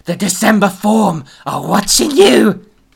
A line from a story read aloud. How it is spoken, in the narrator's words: he screeched